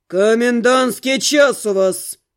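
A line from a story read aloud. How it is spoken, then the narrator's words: Sudden bark. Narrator (Russian): И тут как рявкнет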